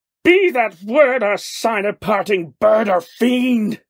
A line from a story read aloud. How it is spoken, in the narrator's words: I shrieked upstarting